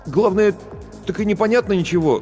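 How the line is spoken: Bewildered. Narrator (Russian): растерянно произнес Барботько

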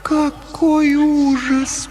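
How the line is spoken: Moaning. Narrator (Russian): простонала Лаура

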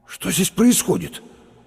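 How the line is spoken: Forced out with difficulty. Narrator (Russian): выдавил через минуту Лопатиков

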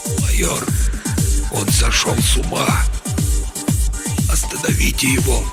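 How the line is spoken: Weak, barely audible, hoarse. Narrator (Russian): Он слабым, едва слышимым, хриплым голосом произнес

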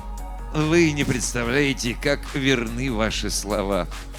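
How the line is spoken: Sighing, smiling, cryptic. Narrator (Russian): Доктор Слеу, вздохнув, улыбнулся и непонятно сказал

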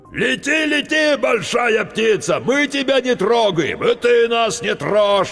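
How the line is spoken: Eldest child yelling. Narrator (Russian): вопил старший

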